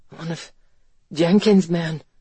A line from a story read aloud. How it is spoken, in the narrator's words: Ransom had gasped, fighting to stay conscious